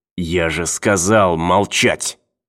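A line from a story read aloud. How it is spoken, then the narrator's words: Hissing. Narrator (Russian): снова прошипел он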